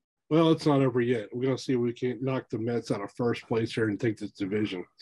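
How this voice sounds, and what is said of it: Southern American accent. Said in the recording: “has the southern accent, so let's face it, it's a lot more charming”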